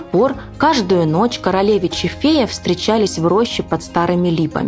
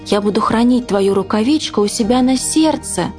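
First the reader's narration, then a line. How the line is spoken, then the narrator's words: Exclaiming prince. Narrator (Russian): воскликнул королевич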